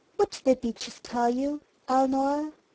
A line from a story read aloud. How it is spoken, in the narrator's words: he asked gently